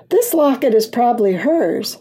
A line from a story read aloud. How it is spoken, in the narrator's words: Ronnie said excitedly